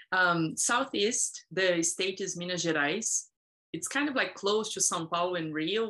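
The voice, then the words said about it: Speaks with a foreign accent. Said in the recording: “I can hear your accent”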